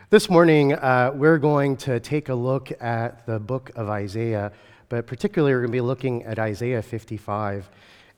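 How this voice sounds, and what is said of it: Weak voice from illness. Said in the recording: “my voice is a little bit weak this morning”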